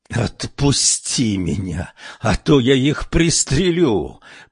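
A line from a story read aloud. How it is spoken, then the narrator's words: Female growl. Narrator (Russian): прорычала Сабрина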